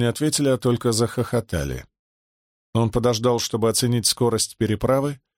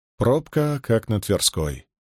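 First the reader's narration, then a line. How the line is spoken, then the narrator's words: Sighed. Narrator (Russian): вздохнул Раевский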